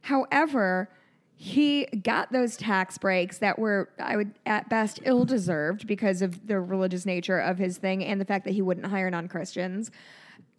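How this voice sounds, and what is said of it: Hoarse, strained voice. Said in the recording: “I've lost my voice. I've been screaming for three days.”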